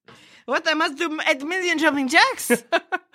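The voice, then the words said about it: Put-on French accent. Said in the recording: “my French accent got better”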